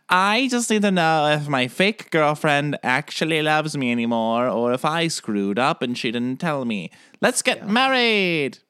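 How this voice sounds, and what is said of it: Imitates another person's voice. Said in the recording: “That's my Derek impression. ... That was spot on.”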